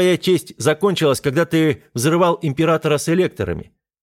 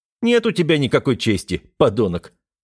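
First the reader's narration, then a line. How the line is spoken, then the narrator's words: Calm. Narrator (Russian): спокойно сказал я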